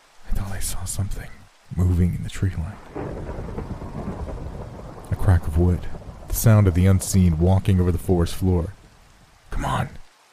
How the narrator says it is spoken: Jai whispered with urgency

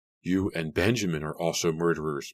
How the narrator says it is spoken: Mary cried

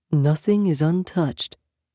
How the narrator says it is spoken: Yaskander murmured

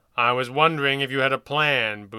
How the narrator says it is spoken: Boone said gruffly

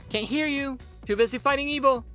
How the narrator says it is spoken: Harry shouted back

